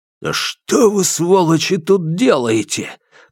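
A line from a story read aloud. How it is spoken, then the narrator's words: Hissing. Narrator (Russian): прошипел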